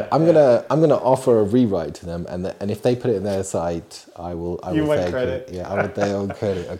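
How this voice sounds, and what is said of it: Usual voice. Nothing is said of it.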